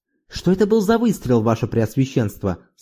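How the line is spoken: Plain. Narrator (Russian): спросил

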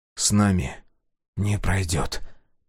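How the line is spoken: Whispered. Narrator (Russian): прошептал Сега

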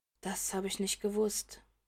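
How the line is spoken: Murmured. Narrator (German): murmelt er

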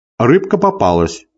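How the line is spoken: Laughing. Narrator (Russian): засмеялся

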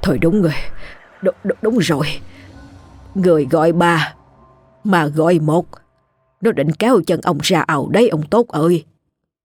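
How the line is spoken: Shocked stammering. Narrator (Vietnamese): Ông Đồ nghe vậy lập tức ngã ngồi ra ghế, miệng lắp bắp

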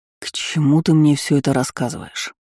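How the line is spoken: Weary question. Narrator (Russian): спросил устало

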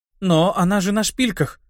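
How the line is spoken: Confused muttering. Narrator (Russian): Растерянно пробормотала жрица

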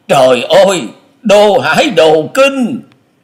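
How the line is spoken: Panicked cry. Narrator (Vietnamese): Long Hải Kiếm Khách chợt hớt hải kêu lên

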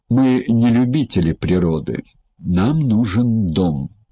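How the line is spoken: Spiteful. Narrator (Russian): злобно произнес

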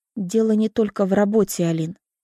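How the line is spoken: Quiet. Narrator (Russian): тихо произносит Люся

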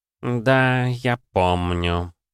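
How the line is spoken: Dreamy drawl. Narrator (Russian): мечтательно протянул Баке

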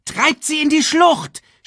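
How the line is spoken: Female shouting to comrades. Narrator (German): schrie Shenzi ihren Kameraden zu

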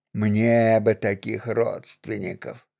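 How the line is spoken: Perfunctory mutter. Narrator (Russian): дежурно буркнул Мирон Викентьевич

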